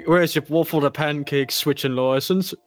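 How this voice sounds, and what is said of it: Put-on British accent. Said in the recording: “I can't not talk to you in a British accent.”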